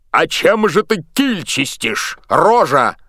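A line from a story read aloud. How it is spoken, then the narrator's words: Bark. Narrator (Russian): рявкнул боцман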